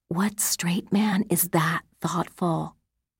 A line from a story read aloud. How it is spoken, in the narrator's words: murmured